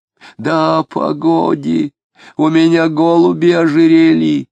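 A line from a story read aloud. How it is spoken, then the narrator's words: Mournful wheezing. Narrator (Russian): Тоскливо хрипел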